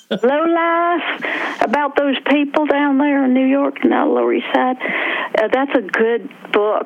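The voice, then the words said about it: West Virginia accent. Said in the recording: “my West Virginia accent”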